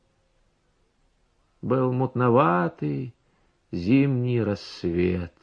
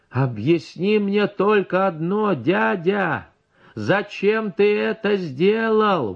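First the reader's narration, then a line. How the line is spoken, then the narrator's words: Loud shout. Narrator (Russian): в ухо погромче крикнул я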